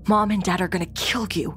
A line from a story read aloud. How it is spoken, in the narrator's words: My brother whisper yelling, said